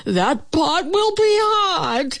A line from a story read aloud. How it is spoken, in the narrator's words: howled the wolf as he tumbled